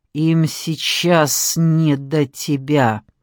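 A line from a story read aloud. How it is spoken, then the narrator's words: Hissing. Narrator (Russian): прошипела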